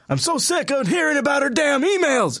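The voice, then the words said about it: Bernie Sanders impression. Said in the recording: “my first Bernie Sanders impression ... Was shockingly good ... your Bernie impression”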